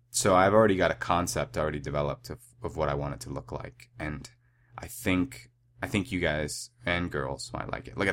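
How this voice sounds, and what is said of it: Congested, nasal sick voice. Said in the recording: “My voice is a little bit weird right now because I'm sick... My nasal cavity... when it gets clogged, it makes my voice sound a lot better than it normally is”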